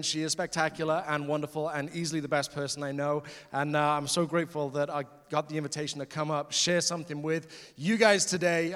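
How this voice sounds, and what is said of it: British accent. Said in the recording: “I am from the UK. The accent is not faked.”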